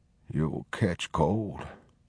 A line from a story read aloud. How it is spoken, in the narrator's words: He murmured thickly